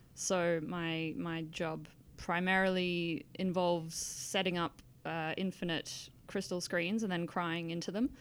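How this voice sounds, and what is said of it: Australian accent. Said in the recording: “your accent makes us sound like you're probably familiar with the hot weather... I am Australian”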